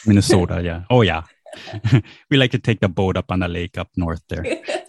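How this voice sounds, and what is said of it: Minnesotan accent. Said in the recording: “if you hear a Minnesotan accent coming out, then it comes out occasionally ... I hear a little bit when you say Minnesota.”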